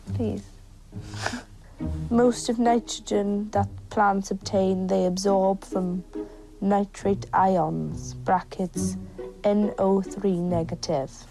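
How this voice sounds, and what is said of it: Silly put-on accent. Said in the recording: “got to do it in a stupid accent ... if you keep speaking like that”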